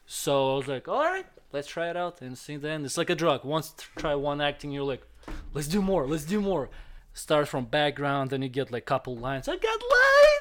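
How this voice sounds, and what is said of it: Russian accent. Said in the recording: “I'm Russian America, have accent”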